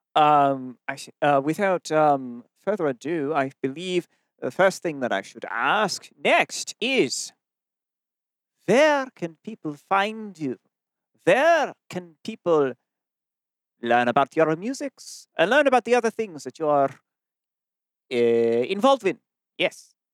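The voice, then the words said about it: Weird put-on accent. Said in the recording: “I like that you're sticking with the weird accent.”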